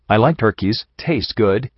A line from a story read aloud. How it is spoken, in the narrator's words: she whimpered